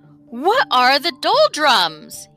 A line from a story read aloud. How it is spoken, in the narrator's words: He cried loudly